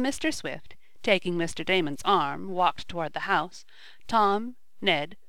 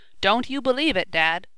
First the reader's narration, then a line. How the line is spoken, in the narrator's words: cried Tom, with more of a jolly air of one chum toward another than as though the talk was between father and son